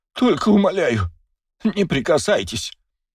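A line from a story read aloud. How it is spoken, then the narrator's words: Pleading man. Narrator (Russian): взмолился мужчина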